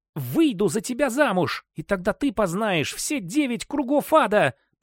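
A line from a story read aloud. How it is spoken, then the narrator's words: Hissing young woman. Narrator (Russian): прошипела девушка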